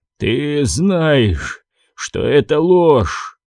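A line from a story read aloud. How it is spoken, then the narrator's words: Hoarse old man. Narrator (Russian): прохрипел старик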